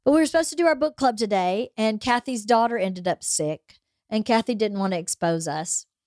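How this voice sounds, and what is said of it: Stuffy, congested voice. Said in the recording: “I have a cold. So if I sound a little stuffy”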